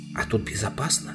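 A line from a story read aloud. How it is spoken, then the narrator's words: Very quiet whisper. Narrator (Russian): как можно тише прошептала Аравита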